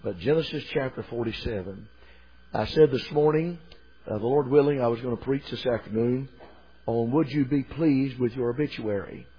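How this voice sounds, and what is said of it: Weak, slightly strained voice. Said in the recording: “my voice is a little bit weak”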